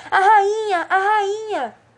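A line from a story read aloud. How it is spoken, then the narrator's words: Anxious shout. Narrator (Portuguese): Cinco, que estivera todo o tempo olhando ansiosamente para o jardim, gritou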